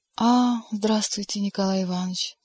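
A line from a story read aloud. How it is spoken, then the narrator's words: Sad voice. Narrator (Russian): грустным голосом сказала Маргарита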